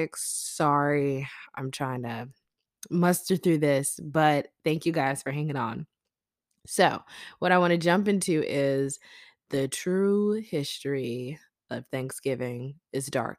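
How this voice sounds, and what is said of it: Sick-sounding voice. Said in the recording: “I sound a little sick.”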